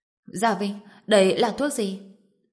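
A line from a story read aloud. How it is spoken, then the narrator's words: Trembling, cautious question. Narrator (Vietnamese): Dương Quế Lan khắp người đều run rẩy, dè dặt hỏi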